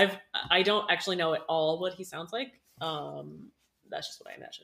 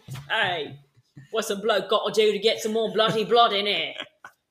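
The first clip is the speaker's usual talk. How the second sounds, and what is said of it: Put-on British accent. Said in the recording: “he's British, and there's one British accent”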